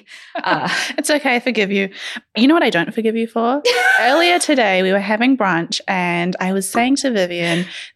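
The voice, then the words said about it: New Zealand accent. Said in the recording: “you're a Kiwi ... Australian accents, they're so different to mine”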